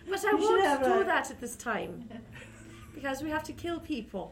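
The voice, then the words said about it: Put-on Irish accent. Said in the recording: “And you're still Irish. ... And I'm still Irish. ... this Irish accent”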